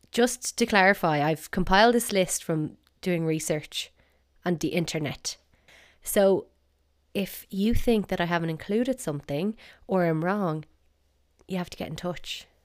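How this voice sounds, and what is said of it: South Dublin Irish accent. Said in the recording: “my South Dublin accent”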